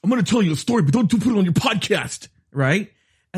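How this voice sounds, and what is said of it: Imitates another person's voice, overemphasized inflection. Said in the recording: “great Melissa McQueen impression ... I feel it's a male version. I didn't try to do a girl voice ... The inflection was Melissa McQueen ... It was very Melissa McQueen”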